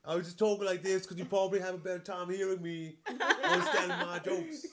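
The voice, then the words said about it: Put-on British accent. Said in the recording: “You should do it like all in a British accent.”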